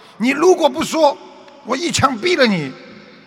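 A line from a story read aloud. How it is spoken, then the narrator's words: Furious roar. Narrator (Chinese): 警察大怒，对着抢劫犯吼道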